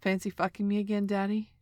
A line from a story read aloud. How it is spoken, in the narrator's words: Joel asked